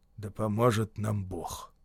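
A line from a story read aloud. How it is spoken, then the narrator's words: Muttering. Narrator (Russian): пробормотал сержант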